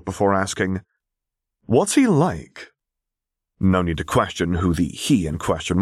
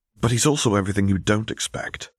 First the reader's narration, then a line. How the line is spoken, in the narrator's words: he whispered